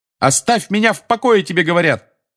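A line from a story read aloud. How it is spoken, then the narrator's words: Yelling. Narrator (Russian): заорал Гарри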